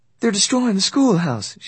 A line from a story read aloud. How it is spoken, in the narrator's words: she said, gasping for breath